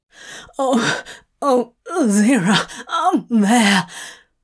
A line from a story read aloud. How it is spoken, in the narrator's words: Crowley pants